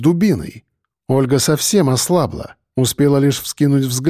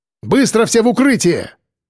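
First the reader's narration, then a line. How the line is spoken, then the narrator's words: Shouted. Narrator (Russian): крикнул я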